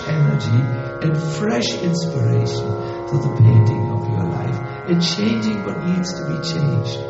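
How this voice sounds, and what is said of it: Strong German accent in English. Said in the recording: “I still have a hard German accent”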